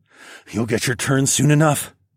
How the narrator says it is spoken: I grunted

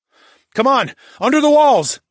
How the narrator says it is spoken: shouted

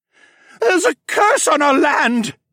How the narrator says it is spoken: the mage wailed

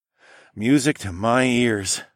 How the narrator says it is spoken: I sighed

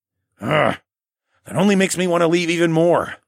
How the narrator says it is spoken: I said through gritted teeth

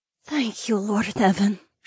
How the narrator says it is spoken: she murmured

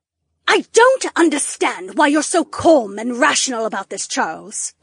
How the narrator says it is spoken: the Duchess snapped

